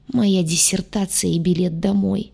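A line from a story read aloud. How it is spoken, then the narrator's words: Moaning. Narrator (Russian): простонал целитель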